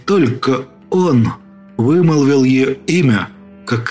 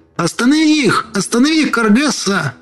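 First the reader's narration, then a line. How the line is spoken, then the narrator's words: Boy screaming at full strength. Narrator (Russian): Мальчик закричал, что было сил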